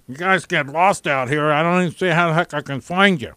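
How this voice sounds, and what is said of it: Imitates another person's voice. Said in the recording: “You sound like Chuck, too. ... my Chuck impersonation.”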